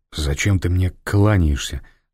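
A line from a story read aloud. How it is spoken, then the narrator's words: Irritated question. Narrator (Russian): раздраженно спросил Фандорин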